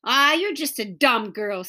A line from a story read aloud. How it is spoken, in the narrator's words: sneered Scooter